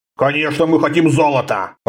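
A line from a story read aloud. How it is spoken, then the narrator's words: Grumbling. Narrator (Russian): проворчал Риза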